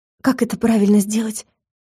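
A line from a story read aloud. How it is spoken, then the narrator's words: Frightened question. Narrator (Russian): испуганно спросила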